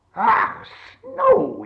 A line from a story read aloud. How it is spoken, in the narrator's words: he cried